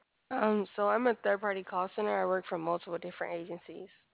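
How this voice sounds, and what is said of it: Hoarse, fading voice. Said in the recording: “My voice is going out.”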